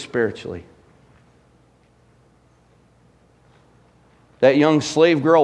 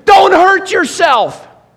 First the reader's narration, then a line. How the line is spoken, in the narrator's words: Paul shouts to him